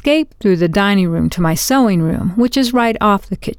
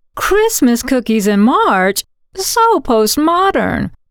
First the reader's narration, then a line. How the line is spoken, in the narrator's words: The door from my sewing room to the kitchen was closed, but I could still hear Carol exclaim